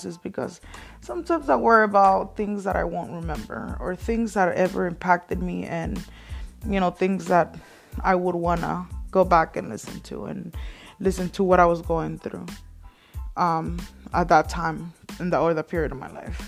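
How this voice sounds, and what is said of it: Light Mexican Spanish accent. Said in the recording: “born and raised in Mexico, as you guys can probably tell from my accent. I don't have a very heavy accent anymore”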